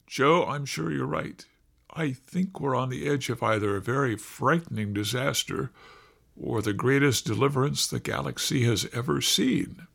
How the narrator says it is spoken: Catherine said quietly

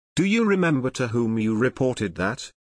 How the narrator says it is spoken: asked Nejtsi

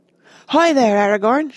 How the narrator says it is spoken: shouted Boromir

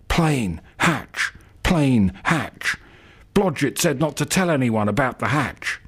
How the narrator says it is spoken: he starts muttering

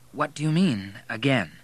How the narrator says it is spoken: asked Kate nervously

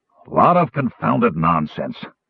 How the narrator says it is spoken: Flint grumbled

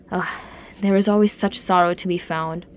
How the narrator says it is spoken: he sighed

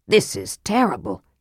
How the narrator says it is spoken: Sturm said grimly

